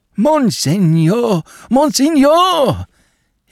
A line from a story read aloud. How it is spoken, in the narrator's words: he cried, in a quavering voice